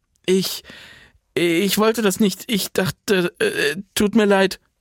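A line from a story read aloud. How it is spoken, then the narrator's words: Stammering. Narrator (German): stammelte sie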